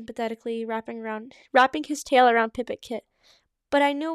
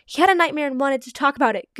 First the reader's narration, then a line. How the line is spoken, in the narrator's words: Goose Kit blurted quickly